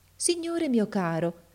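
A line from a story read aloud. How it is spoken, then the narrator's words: Very affectionate voice. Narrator (Italian): gli disse con voce molto affettuosa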